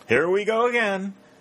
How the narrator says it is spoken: cried Pennington

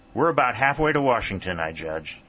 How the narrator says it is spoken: he said

